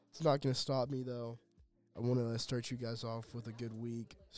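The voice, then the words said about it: Voice sounds slightly off. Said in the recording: “my voice is a tad bit off”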